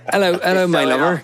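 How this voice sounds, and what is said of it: West Country accent. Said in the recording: “Now I'm just a West Country yokel ... I suppose I could probably sound like that. I guess if you want me, me to sound more like you.”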